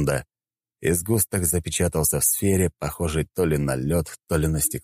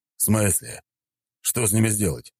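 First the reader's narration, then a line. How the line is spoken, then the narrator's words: Plain. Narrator (Russian): спросил волк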